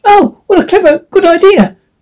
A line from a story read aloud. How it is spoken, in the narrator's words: the squirrel exclaimed